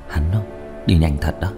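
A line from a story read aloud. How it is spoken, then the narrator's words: Sighing, quiet. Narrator (Vietnamese): Diệp Thiếu Dương thở dài một hơi, âm thầm nói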